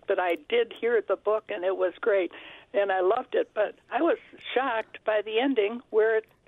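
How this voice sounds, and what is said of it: Raspy voice. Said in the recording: “pardon me for my raspy voice. I had surgery last week”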